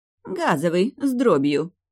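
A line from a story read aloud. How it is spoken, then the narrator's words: Mocking woman. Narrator (Russian): насмешливо уточнила женщина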